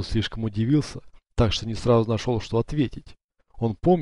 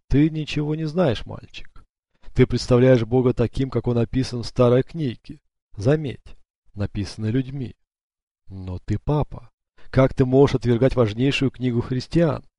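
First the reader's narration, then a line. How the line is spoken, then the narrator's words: Laughing. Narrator (Russian): Родриго рассмеялся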